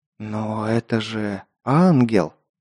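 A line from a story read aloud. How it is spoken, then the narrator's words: Awed whisper. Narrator (Russian): Завороженно прошептал я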